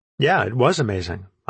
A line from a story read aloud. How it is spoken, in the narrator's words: I said